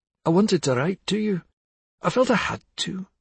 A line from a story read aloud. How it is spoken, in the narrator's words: said Lizzie in a choked voice